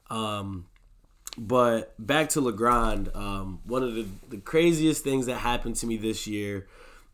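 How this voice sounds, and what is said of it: Slightly funny-sounding voice with a cold. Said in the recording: “my voice sounds a little funny ... I got a, a slight cold”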